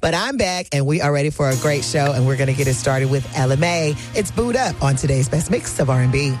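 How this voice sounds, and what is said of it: Slightly hoarse, recovering voice. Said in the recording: “your girl had a little bit of laryngitis, and I still got a little bit, but I'm a lot better now”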